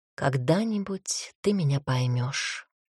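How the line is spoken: Whispered. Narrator (Russian): она прошептала

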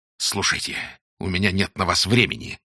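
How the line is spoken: Hissed. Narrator (Russian): зашипел он

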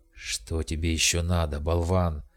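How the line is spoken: Hissed. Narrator (Russian): прошипел Ариман

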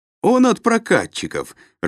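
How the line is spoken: Laughing. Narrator (Russian): рассмеялся Маховский

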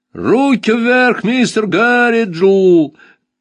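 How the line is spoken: Yelling. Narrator (Russian): завопил Сал Джон

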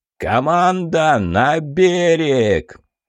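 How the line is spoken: Boatswain shouting. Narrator (Russian): крикнул боцман

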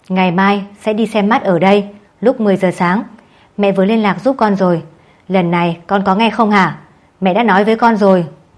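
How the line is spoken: Scolding shout. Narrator (Vietnamese): Mẹ Lâm quát

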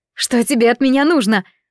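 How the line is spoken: Girl exclaiming. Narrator (Russian): воскликнула девушка

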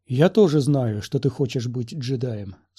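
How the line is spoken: Calm reply. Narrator (Russian): спокойно ответил Квай-Гон

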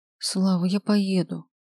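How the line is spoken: Tired whisper. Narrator (Russian): устало шепчет она

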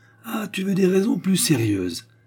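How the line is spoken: Exclaimed. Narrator (French): s'écria M

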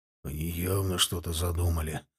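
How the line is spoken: Burly first mate muttering. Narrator (Russian): пробормотал мощный телом старпом

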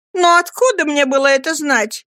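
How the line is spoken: Exclamation. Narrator (Russian): воскликнула мисс Маучер

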